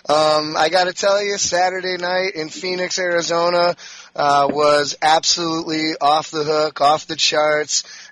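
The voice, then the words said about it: Slightly hoarse voice. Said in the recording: “the voice is a little bit hoarse, more so than usual”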